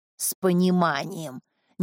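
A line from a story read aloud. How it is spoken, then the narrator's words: Displeased repetition. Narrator (Russian): Недовольным голосом повторила Дулита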